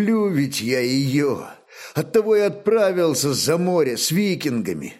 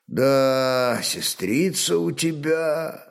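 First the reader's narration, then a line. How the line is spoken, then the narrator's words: Admiring drawl. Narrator (Russian): с восхищением протянул Рарок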